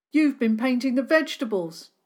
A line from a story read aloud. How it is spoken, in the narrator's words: Ashley called out